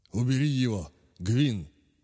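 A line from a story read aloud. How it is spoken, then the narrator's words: Hoarse command. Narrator (Russian): хрипло приказал он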